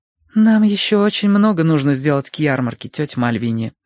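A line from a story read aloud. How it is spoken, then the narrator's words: Sighing. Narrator (Russian): вздохнула Верити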